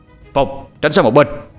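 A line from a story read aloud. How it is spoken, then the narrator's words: Sharp shout. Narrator (Vietnamese): tiếng quát lên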